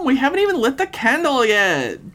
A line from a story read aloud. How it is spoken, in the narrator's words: Peggy pleaded